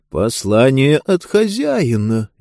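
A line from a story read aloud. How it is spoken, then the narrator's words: Uncertain. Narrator (Russian): неуверенно подхватил епископ Бастер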